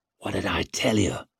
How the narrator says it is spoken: whispered Isher in Leo's ear

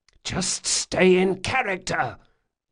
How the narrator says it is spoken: Locke hissed

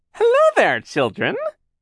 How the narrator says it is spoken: she called in her phony high voice

